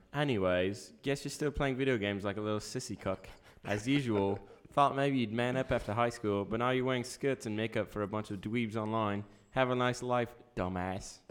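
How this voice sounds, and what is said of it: Put-on British accent. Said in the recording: “can I do like a British accent”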